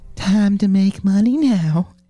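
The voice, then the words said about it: Seductive woman's voice. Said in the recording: “a seductive woman ... That's a good impression.”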